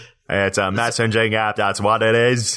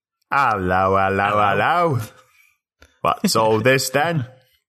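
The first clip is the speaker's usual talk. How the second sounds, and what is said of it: Put-on British accent. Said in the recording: “if you said it in a British accent”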